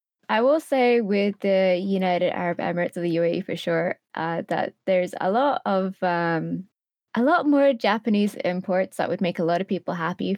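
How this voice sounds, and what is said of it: Mixed accent. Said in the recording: “if you can tell by the accent, it's a bit of a mixture of everything in between, kind of like both there and here kind of thing ... everyone makes fun of my accent quite a bit”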